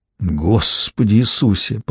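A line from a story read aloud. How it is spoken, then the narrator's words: Muttering. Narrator (Russian): пробормотал камуфляж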